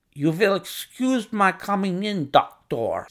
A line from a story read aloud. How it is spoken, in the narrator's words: said he to me, speaking English with a slight lisp